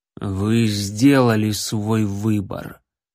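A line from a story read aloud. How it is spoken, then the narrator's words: Gloomy. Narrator (Russian): мрачно произнес Леонардо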